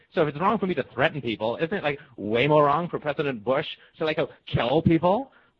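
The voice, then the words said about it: Valley Girl teenage voice. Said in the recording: “my Valley Girl impression ... I'm playing a teenage girl”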